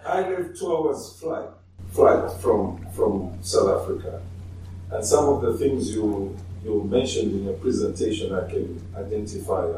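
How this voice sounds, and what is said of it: Zambian accent. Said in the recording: “So I am from Zambia. ... Sorry for my accent, probably.”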